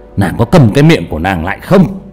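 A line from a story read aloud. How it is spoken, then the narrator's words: Loud angry shout. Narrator (Vietnamese): bị Cao Biển quát lớn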